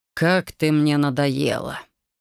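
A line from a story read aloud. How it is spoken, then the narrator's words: Irritated king. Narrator (Russian): Раздраженно произнес его величество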